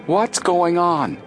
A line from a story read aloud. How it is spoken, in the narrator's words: Joe cried out